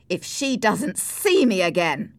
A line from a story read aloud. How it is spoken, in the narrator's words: cried Heathcliff